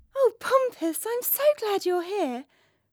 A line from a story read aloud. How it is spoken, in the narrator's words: Princess Marjorie Moore cried, breaking into a huge smile